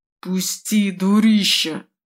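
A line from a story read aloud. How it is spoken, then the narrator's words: Hissed. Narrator (Russian): прошипел он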